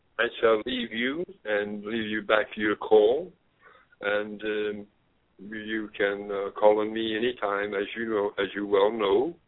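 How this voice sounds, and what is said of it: Speaks with a distinctive accent. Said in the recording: “as far as my accent, I sort of like it. ... We will keep your accent because we associate it with warmth”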